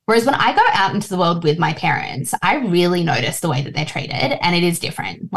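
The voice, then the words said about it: Australian accent. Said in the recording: “I speak like this with this accent ... treating me like I'm just any other Australian”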